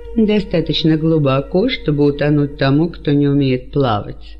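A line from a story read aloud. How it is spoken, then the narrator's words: Laughing. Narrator (Russian): засмеялся Ирод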